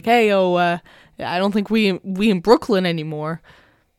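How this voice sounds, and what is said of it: Put-on Brooklyn accent. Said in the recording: “That was my Brooklyn accent.”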